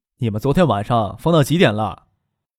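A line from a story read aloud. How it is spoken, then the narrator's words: Frowning, smiling question. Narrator (Chinese): 张克皱着眉笑了笑，问许思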